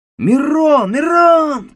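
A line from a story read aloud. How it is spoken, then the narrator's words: Shouting from behind. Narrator (Russian): кричал сзади Галуа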